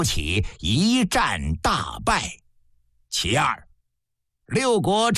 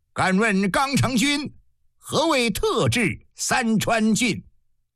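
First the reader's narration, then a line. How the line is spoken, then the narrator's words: Loud blurted question. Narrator (Chinese): 大田令禁不住高声问了一句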